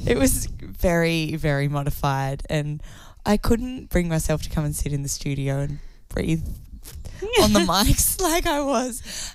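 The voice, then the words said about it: Husky, slightly raspy voice. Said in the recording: “my voice sounds... Still got that sesky husk... It's a little bit raspy.”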